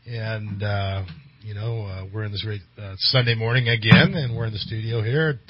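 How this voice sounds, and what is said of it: Slightly off voice from a cold. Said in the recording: “I'm still kind of trying to get over this little bit of a cold or whatever ... my voice is a little off”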